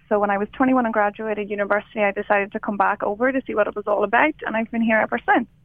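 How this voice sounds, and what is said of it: Irish accent. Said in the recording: “you didn't leave your accent there.”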